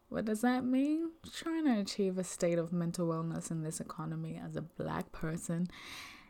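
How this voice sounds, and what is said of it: Sultry voice. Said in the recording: “doing this really sultry voice”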